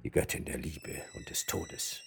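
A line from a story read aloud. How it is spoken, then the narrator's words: Murmur. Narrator (German): murmelte Sir Francis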